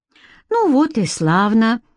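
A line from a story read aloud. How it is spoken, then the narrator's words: Cheerful. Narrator (Russian): бодро кивнула Алена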